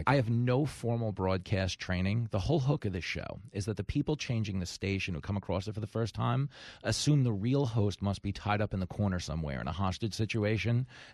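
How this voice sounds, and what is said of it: Deep, hypnotic radio voice. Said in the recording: “your radio voice, and you have a nice deep ... the voice is hypnotizing me”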